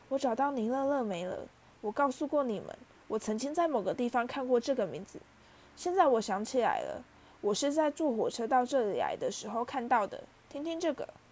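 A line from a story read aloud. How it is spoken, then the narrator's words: Soft. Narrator (Chinese): 他轻声说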